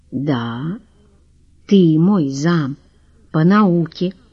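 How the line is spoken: Quiet and menacing. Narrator (Russian): все так же тихо и грозно подтвердил Пилюгин

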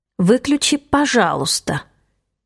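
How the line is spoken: Through gritted teeth. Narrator (Russian): добавляю сквозь зубы

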